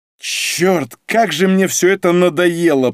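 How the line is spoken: Groaning. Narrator (Russian): простонал Олег

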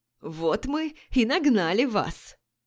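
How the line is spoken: Hoarse voice from behind. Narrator (Russian): послышался позади меня хриплый голос

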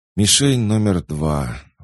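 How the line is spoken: Sighing admission. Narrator (Russian): вздохнув, признался Хоггинс

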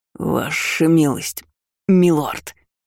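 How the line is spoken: Hoarse wheeze from below. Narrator (Russian): захрипел менталист откуда-то снизу

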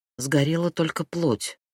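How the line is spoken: Muttered. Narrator (Russian): пробормотала она

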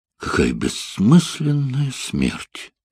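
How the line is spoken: Sighing. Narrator (Russian): вздохнула Барбара

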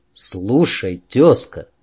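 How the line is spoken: Calm reply. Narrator (Russian): спокойно ответил я

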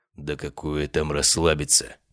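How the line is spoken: Muttering. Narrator (Russian): пробормотал он

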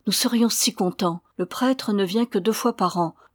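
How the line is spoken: Exclaimed. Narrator (French): s'écria Alessandro

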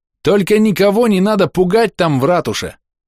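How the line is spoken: Yelling. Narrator (Russian): завопил я

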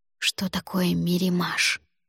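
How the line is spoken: Whispered question. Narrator (Russian): шепотом спросила я у Альгидраса

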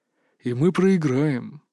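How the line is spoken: Breathed out. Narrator (Russian): выдохнул Иван

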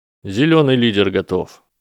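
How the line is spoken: Dry reply. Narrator (Russian): сухо отозвался Теодор Нотт

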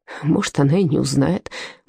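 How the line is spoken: Grumbled mutter. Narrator (Russian): буркнул Отто

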